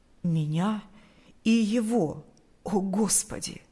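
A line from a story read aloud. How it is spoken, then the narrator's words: Trembling voice. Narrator (Russian): произнес он дрожащим голосом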